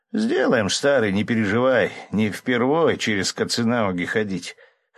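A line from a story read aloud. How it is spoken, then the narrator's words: Amused snort. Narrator (Russian): хмыкнул Малькольм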